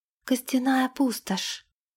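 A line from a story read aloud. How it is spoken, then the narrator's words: Breathless exhale. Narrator (Russian): выдохнула Лилейна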